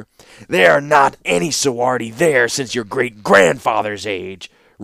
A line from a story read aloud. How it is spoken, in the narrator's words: rejoined the warlord hotly